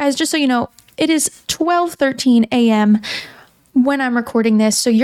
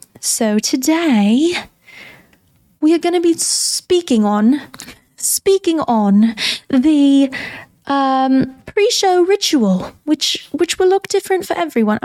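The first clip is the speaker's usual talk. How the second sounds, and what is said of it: Put-on accent. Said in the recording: “the accent”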